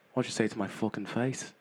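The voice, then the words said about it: Put-on accent, poorly done. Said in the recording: “Can you get rid of the accent? ... You sounded a bit like Conor McGregor. ... That was pretty bad.”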